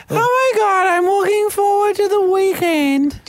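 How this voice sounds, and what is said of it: High-pitched mocking imitation. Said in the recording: “put on a high voice”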